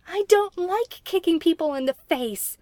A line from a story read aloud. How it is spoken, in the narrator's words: Merlin yelled in reply